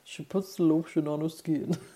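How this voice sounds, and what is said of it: Bad impression of film character's voice. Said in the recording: “my really bad impression... Buffalo Bill”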